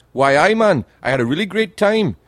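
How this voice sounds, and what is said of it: Attempted Geordie Newcastle accent. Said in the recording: “I can't do the accent. They've got the best accent ever, the people from Newcastle. Geordie ... They speak like that. ... I can't do the accent”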